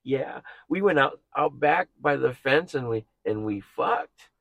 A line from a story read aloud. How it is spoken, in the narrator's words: I hear the lady kind of chuckle, and she goes